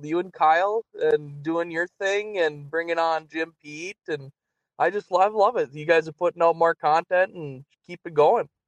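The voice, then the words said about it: Strong Minnesota accent. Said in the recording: “All-time great Minnesota accent there ... on the Iron Range ... that was an all-time Minnesota accent.”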